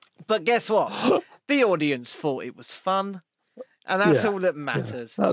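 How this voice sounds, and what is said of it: Usual voice. Nothing is said of it.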